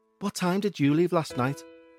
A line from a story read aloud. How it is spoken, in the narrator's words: I muttered quietly